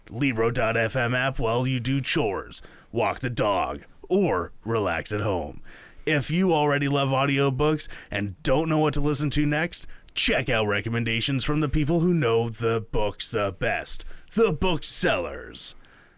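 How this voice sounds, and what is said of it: Radio movie trailer announcer voice. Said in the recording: “that was your best radio voice. Yeah, it was like radio/movie trailer voice.”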